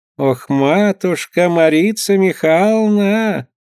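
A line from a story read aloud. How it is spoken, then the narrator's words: Singsong. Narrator (Russian): заговорила нараспев Феоне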